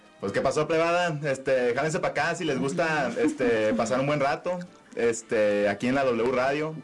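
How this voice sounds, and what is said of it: Sinaloan coastal Mexican accent. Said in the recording (Spanish): “el costeño es así costeñito ... háblanos con tu mejor acento sinaloense”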